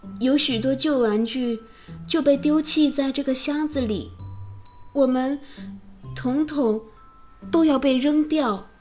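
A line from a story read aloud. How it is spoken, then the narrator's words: Sighing. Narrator (Chinese): 威利叹气道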